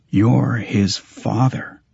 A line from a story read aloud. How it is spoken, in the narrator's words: I said quietly